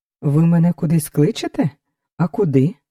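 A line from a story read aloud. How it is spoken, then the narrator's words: Calm question. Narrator (Ukrainian): спокійно спитав Лясопольський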